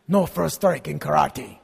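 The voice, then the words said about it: Put-on Asian accent, movie character. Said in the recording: “I'm imitating Miyagi ... I did an Asian accent ... Mr. Miyagi spoke that way”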